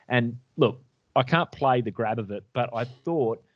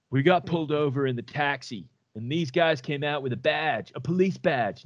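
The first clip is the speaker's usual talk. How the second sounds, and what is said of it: Impression of Ryan Lochte. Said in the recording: “do a Ryan Lochte voice.”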